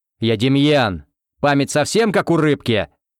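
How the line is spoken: Growled. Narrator (Russian): Рыкнул он

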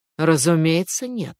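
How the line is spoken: Sighing. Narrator (Russian): вздохнув

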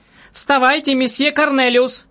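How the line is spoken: Shouting. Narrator (Russian): кричала она

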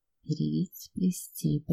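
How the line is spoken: Whisper. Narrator (Russian): прошептала Инга

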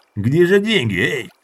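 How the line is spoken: Growled. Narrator (Russian): зарычал Брунет

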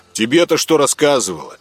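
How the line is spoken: Snorting tall man. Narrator (Russian): хмыкнул самый рослый

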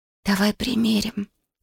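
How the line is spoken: Close whisper. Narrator (Russian): прошептала Юми, наклонившись близко к Акане

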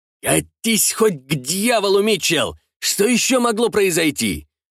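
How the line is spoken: Angry shout. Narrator (Russian): выкрикнул адмирал

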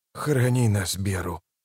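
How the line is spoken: Whispered. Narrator (Russian): прошептал лейтенант

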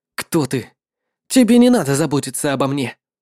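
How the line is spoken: Angry, stung by reproach. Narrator (Russian): Услышав, как его упрекает Лоло, его лицо раскраснелось, и он злобно сказал

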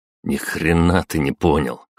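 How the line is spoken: Snort. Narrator (Russian): хмыкнул я

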